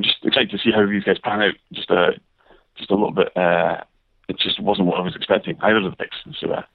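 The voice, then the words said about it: Strong British accent. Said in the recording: “great to get your opinion from across the pond ... Hopefully, our listeners can decipher the accent a little bit there. I picked it up just fine. I listened. You know, it's not wasn't too bad.”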